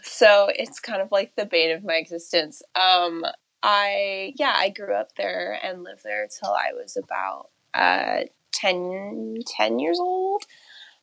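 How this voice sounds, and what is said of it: American West Coast accent. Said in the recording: “your accent. It is 100% West Coast.”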